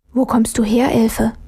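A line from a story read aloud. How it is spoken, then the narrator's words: Puzzled whisper. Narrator (German): flüsterte Armele verdutzt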